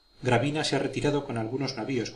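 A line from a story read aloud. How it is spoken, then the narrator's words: Plain. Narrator (Spanish): contestó el inglés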